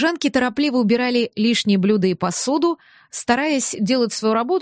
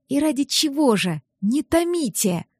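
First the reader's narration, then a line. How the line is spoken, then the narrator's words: Whisper. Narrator (Russian): прошептала Мира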